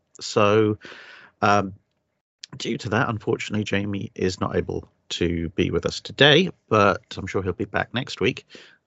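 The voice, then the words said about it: Weak, recovering hoarse voice. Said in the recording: “I'm recovering from having lost my voice, and I lost my voice ... operating at half power”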